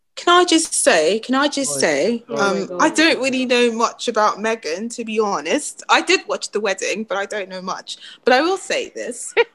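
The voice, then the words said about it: British English accent. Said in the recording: “Can I understand this accent now? ... I know you guys don't understand British English, but that's what I'm speaking”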